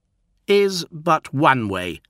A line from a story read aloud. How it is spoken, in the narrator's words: snapped Charon